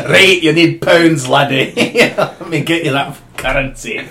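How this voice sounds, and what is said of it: Put-on Scottish accent. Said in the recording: “I do the like Scottish one”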